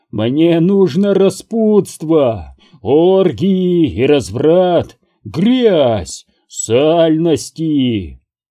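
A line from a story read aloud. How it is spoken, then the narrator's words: Shrill piercing wheezing shriek. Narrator (Russian): Его голос поднялся до настоящего визга, пронзительного, отвратительного хрипа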